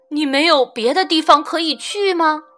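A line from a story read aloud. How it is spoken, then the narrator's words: Old wolf, smiling. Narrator (Chinese): 老狼笑着说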